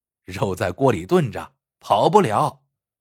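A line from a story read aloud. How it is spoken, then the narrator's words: Hearty laughing. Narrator (Chinese): 他总是笑哈哈的说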